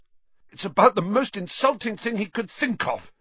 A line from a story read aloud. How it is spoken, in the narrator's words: gasped Ron, coming back up